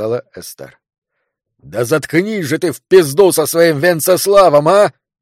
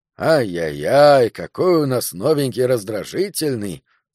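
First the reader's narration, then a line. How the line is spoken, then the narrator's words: Plain. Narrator (Russian): сказал Уоррен Телбот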